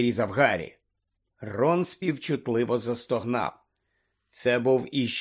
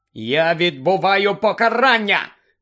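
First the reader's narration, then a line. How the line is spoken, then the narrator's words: Shouting after someone. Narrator (Ukrainian): закричав їй вслід Гаррі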